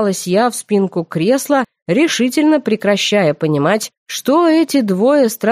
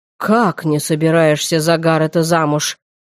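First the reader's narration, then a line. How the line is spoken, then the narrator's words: Creaky father's voice. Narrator (Russian): проскрипел папа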